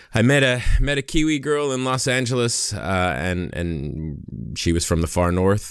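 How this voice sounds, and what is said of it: American accent. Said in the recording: “my American accent ... I'm an American who's relocated to New Zealand”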